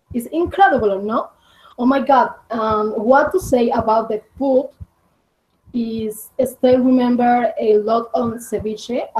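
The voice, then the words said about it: Non-native accent in English. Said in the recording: “sorry for my accent”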